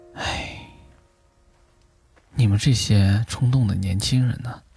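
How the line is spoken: Soft-hearted sigh. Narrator (Chinese): 父亲 心软的叹口气

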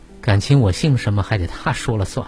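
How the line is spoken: Laughing. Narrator (Chinese): 他也笑着说

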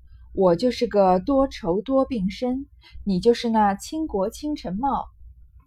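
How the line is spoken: Laughing. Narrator (Chinese): 宝玉笑道

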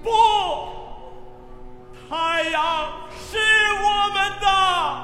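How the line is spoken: Chorus of voices. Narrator (Chinese): 合唱声音响起

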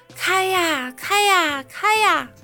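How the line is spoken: Loud shout. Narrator (Chinese): 快递小哥 都会在门口大声喊

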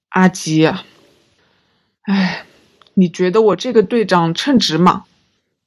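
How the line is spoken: Sighing, hesitant. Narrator (Chinese): 骆小明叹一口气，顿了一顿，说

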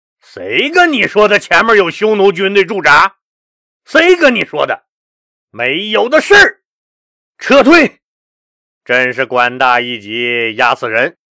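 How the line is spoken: Furious loud scolding. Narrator (Chinese): 田广明听完大怒，大声呵斥公孙义寿

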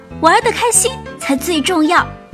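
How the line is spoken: Loud. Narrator (Chinese): 女王大声说

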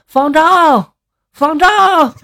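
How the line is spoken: Straining shout from below. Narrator (Chinese): 快递员在这个楼下扯着嗓子就喊

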